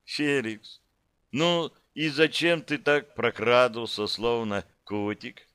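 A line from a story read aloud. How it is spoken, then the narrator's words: Languid asking, beautiful woman. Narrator (Russian): Томно поинтересовалась красавица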